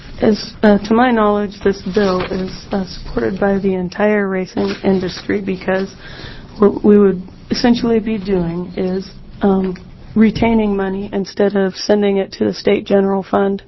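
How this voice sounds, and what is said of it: Sick, rough-sounding voice. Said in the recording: “I'm sick, so pardon my voice ... I sound worse than I feel.”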